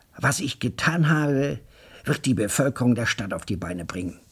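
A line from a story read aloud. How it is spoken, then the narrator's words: Excited assertion. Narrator (German): behauptete er aufgeregt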